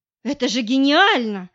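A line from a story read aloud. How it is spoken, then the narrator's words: Exclaiming. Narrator (Russian): воскликнула я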